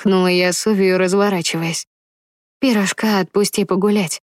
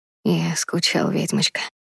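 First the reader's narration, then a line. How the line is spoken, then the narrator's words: Whisper in ear. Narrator (Russian): шепнул он мне на ухо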